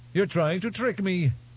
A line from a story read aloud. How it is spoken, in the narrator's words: he blurted